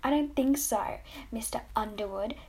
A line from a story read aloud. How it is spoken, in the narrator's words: she said